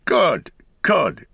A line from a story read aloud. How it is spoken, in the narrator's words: cried Farmer Cotton